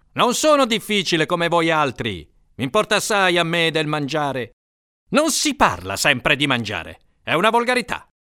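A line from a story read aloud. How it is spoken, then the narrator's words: Thundering. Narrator (Italian): tuonava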